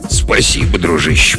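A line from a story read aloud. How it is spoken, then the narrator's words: Muttering. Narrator (Russian): пробормотал он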